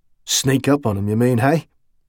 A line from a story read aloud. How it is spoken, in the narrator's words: Talbot chuckled again